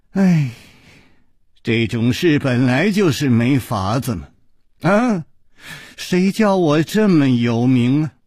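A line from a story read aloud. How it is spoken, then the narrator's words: Deliberate mock sigh. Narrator (Chinese): 陆小凤故意叹了一口气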